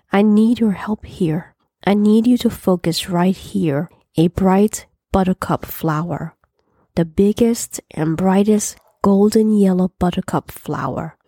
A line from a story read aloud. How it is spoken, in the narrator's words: said softly